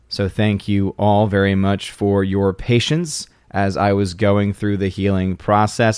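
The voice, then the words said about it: Voice not fully recovered, strained. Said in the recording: “My voice is not fully back yet from earlier in the week, though it is definitely a lot better than it was before.”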